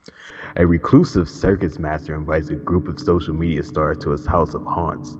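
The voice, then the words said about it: Dramatic reading voice. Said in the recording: “my dramatic voice”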